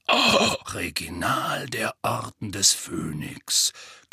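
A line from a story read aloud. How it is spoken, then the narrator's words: Growl. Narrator (German): knurrte Moody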